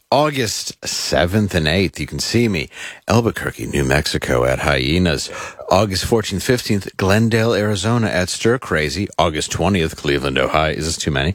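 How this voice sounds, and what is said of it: Smooth radio announcer voice. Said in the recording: “I just like how you get smooth when you do these ... I read it in my very radio voice.”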